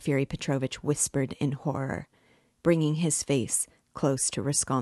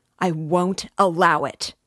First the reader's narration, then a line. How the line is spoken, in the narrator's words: Raskolnikov shouted again